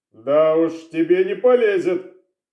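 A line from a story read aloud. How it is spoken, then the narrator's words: Snorting remark. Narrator (Russian): Хмыкнул сыщик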